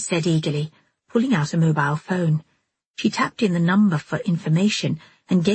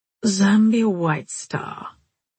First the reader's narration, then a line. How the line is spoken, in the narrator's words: Oliver Spike was saying in a flat, limp voice